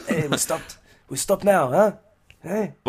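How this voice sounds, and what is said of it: Put-on Israeli accent. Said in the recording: “trying to do an Israeli accent”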